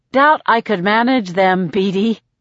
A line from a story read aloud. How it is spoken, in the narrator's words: I laugh